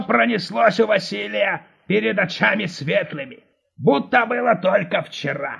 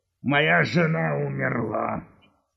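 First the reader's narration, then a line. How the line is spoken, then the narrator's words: Dejected gurgling voice. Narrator (Russian): упавшим голосом пробурлил вафля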